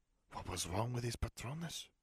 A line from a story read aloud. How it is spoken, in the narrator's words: She hissed